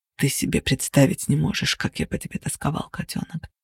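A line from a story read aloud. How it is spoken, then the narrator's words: Mutter. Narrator (Russian): пробормотал Кости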